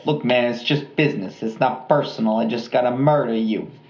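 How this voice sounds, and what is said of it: Put-on Jersey Italian mobster accent. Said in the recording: “I think we both do a really great mobster accent ... here we are in Jersey, Italian.”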